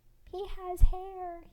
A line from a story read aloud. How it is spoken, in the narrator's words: he exclaimed